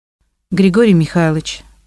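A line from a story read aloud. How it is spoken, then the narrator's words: Even, level voice. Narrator (Russian): начала Татьяна ровным голосом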